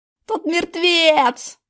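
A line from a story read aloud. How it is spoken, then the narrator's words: Wild wail. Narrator (Russian): завопил дурным голосом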